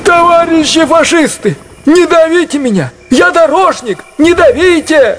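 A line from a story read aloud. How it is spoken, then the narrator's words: Shouting. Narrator (Russian): Закричал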